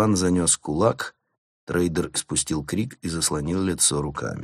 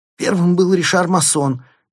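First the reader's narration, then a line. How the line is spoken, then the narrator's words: Squeak. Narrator (Russian): пискнул финансист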